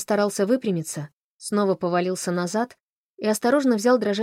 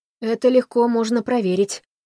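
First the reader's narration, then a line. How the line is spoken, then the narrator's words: Hoarse rasp. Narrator (Russian): прохрипел Эрл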